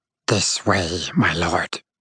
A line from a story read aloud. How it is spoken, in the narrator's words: Toot rasped in a low, dramatic tone